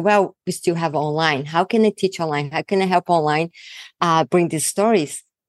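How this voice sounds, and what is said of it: Very thick Brazilian accent. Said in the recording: “I'm from Brazil. So I have a very thick accent”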